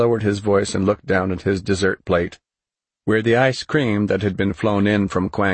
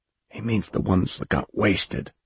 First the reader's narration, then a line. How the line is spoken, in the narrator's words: Mellis whispered to the new lieutenant next to him